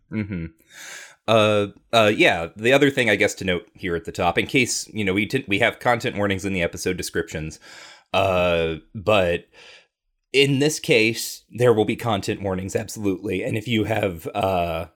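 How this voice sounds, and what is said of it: Choked-up, emotional voice. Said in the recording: “You're getting choked up about it? ... A little bit.”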